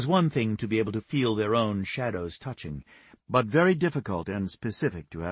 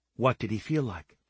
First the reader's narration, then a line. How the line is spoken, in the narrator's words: her voice held sincerity, as if she believed him and wanted to know more